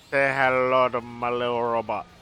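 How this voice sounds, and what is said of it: Poorly done put-on accent. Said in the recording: “you should have had the accent, man ... Alright, that wasn't good”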